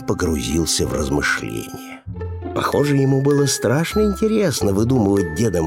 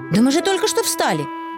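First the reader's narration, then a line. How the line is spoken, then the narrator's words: Exclaimed. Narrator (Russian): воскликнул Финдус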